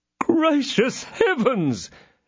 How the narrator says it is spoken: exclaimed the landlord

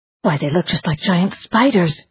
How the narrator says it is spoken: whispered Amarie

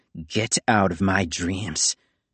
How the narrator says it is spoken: Nico snarled

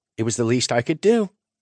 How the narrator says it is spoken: she said cheerfully

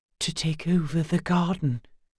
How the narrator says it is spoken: he whispered

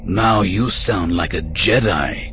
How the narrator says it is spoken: Kopej sneered

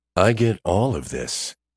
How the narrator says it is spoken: Smith says, leaning over her shoulder to whisper in her ear

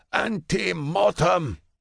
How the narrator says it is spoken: he bellows to the golds

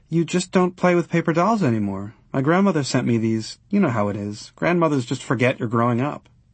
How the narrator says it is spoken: Leslie gave a little sigh

